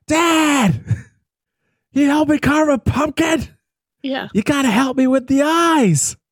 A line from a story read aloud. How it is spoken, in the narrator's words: yelling down to him, just like